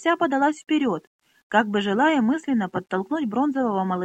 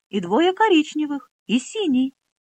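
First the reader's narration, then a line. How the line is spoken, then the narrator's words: Excited repetition. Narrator (Russian): не менее взволнованно повторила подруге Минолли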